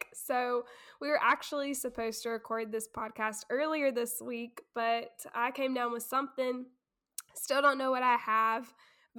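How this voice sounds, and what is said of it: Sick, strange-sounding voice. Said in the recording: “you guys can tell by my voice that I am sick ... why my voice sounds a little strange”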